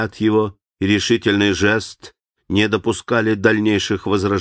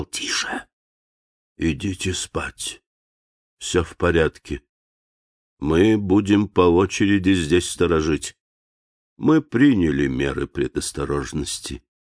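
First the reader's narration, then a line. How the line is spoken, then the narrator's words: Whisper. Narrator (Russian): прошептал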